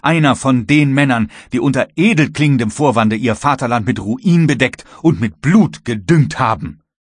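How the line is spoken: Vehement shout. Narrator (German): rief der Kapitän heftig

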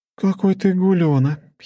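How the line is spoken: Giggling. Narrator (Russian): хихикнула Лора

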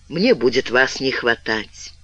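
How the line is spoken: Quiet addition. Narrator (Russian): И тихо добавил

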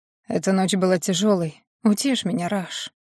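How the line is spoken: Hoarse whisper. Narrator (Russian): сипло прошептал Макс

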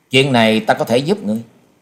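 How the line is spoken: Cold. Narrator (Vietnamese): Hắc Y La Sát đệ nhị đứng ở bên cạnh lạnh lùng nói

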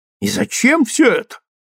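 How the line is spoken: Disapproving exclamation, tongue clicking. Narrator (Russian): воскликнула миссис Грим, неодобрительно прищелкивая языком

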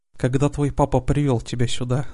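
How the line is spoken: Speaking after laughing. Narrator (Russian): заговорил он, отсмеявшись

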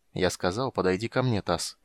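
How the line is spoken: Calm flat voice. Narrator (Russian): повторил Рейстлин спокойным невыразительным голосом

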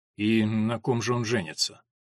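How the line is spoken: Through clenched teeth. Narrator (Russian): Он стиснул зубы и процедил

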